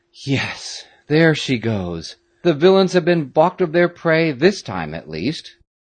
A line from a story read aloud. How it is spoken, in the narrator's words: giving vent to a deep sigh of relief said aloud